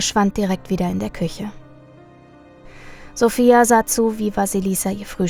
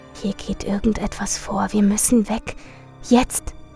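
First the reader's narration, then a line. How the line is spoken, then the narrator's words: Whispered. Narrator (German): flüsterte ihr zu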